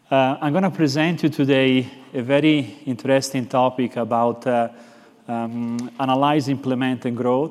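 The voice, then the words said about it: Slight Italian accent. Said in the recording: “I'm actually from Florence, Italy, so I have this little bit of an accent”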